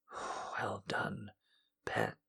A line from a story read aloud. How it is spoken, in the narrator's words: she finally whispered hoarsely